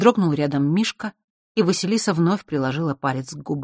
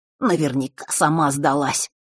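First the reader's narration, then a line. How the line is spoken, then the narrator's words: Angry. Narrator (Russian): зло произнес Норт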